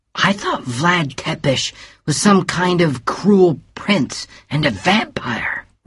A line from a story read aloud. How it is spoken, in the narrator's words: whispered Bill